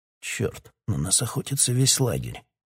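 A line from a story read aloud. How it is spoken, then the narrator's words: Quiet cursing. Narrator (Russian): тихо выругался король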